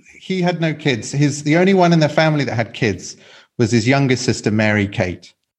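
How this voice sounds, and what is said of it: English accent. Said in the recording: “you can hear from my accent that I'm English”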